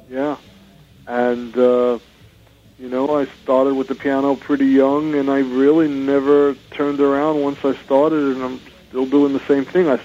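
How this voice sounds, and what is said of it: Brooklyn New York accent. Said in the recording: “from your accent, are you originally from the East Coast? ... Brooklyn ... I can't get rid of it. I've been out here 30 years, and it's still New York. ... It's a great accent.”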